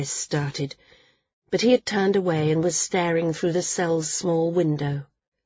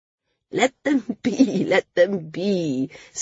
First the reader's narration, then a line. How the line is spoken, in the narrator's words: Cena cried, laughing